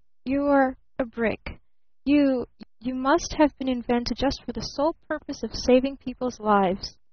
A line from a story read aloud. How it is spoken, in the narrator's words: he stammered